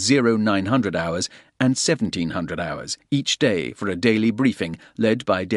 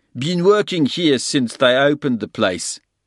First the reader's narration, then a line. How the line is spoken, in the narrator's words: he said in a thick Afrikaans accent